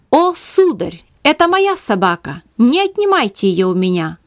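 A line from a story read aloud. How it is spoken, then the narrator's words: Exclaiming. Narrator (Russian): воскликнула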